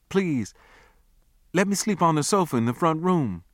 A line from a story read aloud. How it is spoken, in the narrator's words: I pleaded